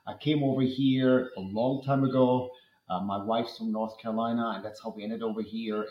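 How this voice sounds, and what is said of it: German accent. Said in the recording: “that accent is German. So before you're curious, it is German.”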